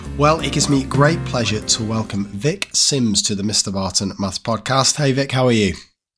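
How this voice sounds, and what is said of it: Croaky, squeaky hoarse voice. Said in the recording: “I'd lost my voice. So apologies in advance for the croakiness, coughs, and squeakiness.”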